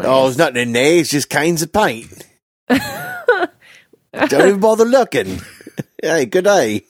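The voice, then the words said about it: Put-on Australian accent. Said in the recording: “impeccable. Australian accent.”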